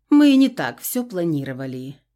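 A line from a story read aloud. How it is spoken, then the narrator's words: Calm. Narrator (Russian): спокойно произнесла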